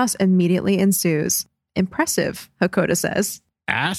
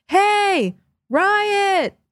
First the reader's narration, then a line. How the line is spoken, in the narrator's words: shouting to the other prisoners